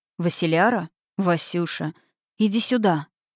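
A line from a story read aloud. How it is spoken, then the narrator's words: Hoarse. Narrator (Russian): срывалась хриплая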